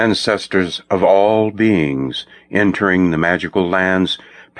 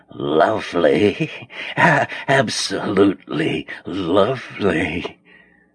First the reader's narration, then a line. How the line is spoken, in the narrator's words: Zenda hissed